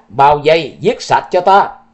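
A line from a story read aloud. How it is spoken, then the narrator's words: Shouted command. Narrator (Vietnamese): Sở Vô Kỵ quát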